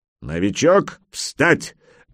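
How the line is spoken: Barked command. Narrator (Russian): рявкнул мастер оружия

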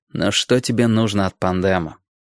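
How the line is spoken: Tired question. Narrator (Russian): устало спросил Ким

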